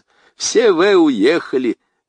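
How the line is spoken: Almost joyful. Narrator (Russian): говорит он почти радостно

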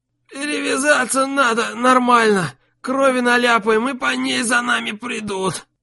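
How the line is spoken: Hoarse, barely conscious wheeze. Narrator (Russian): Прохрипел непонятно как остававшийся в сознании Арио

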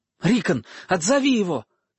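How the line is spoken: Shouting. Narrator (Russian): крикнул Бран своему маленькому брату

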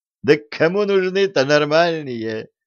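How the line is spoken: Laughing. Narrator (Russian): Рассмеялась миллионерша

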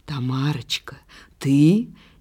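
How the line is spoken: Tender whisper. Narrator (Russian): нежно нашептывал Кинжалов

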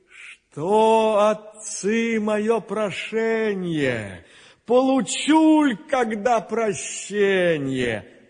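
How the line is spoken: Sighing, giant whale. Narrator (Russian): Чудо-юдо, рыба-кит, так вздохнувши, говорит

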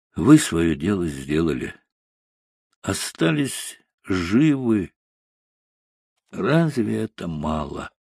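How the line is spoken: Quiet, smiling voice. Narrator (Russian): Байков улыбался, потом негромко, чтобы затихли, сказал

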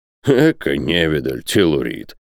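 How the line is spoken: Snort. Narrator (Russian): фыркнул Бензуф

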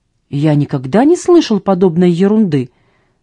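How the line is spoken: Flushed, indignant exclamation. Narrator (Russian): воскликнул сэр Хью багровея

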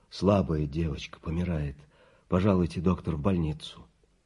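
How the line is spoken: Muffled hollow voice. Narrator (Russian): Сиделка глухо сказала

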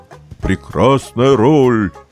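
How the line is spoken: Booming deep bass. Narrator (Russian): страшным басом подтвердила Булавина

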